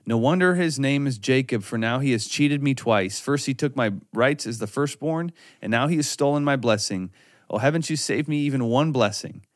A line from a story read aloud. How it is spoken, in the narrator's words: Esau exclaimed